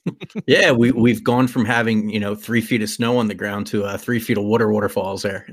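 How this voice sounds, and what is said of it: Philadelphia accent. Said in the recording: “Philadelphia accent's coming out”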